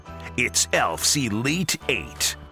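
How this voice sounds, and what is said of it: Booming announcer voice. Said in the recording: “announcer voice”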